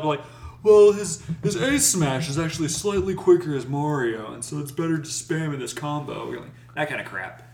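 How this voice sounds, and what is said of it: Laid-back surfer-dude voice. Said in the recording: “my Smash Tournament player impression included that of a guy who rides a surfboard ... I sound like a hippie?”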